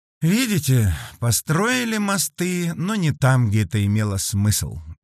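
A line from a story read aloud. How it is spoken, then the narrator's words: Sighing young woman. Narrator (Russian): девушка вздохнула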